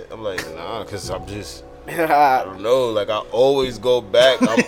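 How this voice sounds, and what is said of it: New Jersey accent. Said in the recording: “you from Jersey? ... You never lost your accent?”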